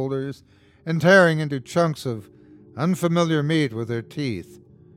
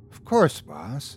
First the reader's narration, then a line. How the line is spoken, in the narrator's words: she replied quietly